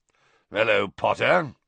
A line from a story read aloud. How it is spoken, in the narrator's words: growled Moody